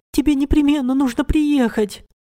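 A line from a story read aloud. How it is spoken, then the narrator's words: Sobbing into phone. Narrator (Russian): рыдала она в трубку телефона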